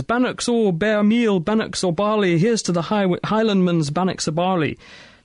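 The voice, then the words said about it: Put-on Scottish accent, not great. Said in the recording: “I will apologise on behalf of ... for his Scottish accent ... I didn't think it was that bad.”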